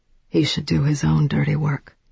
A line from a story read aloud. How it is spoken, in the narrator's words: Bill said quite calmly